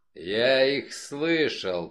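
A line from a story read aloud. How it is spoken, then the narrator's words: Growling. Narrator (Russian): прорычал он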